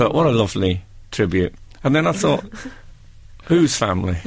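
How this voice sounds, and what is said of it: Usual voice. Nothing is said of it.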